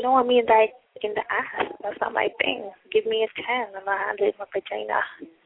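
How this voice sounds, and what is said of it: Noticeable non-native accent. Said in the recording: “That accent was not. Say vagina again.”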